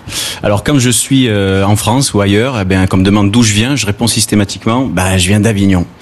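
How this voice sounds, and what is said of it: Southern French accent from the Gard. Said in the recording (French): “vous l'entendez certainement, ben, je suis d'ici ... pour toute la France, je suis du Sud, j'ai l'accent du Sud ... tu as l'accent du Gard”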